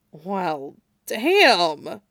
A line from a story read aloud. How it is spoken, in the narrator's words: Jason muttered, voice a little tight as the warm feeling grew in his chest